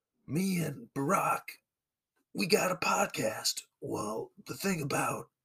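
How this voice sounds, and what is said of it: Old, scruffy-sounding man's voice. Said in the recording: “I feel like I've got a pretty solid old man Bruce Springsteen ... It's not great now, but, you know, just general old, scruffy-sounding white guy. You've got Springsteen.”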